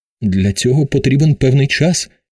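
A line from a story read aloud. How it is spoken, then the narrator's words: Trembling voice. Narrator (Ukrainian): тремтячим голосом промовив Ауб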